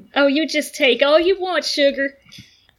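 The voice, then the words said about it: Put-on Southern accent. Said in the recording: “a southern accent, ... It's so good.”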